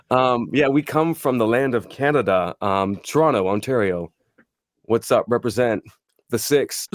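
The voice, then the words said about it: Slight Canadian accent. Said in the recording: “there may be a little bit of a accent, ... you guys are from north of our border. You're up in Toronto area”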